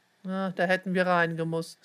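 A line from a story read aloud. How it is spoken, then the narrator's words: Sigh. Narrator (German): seufzte Leon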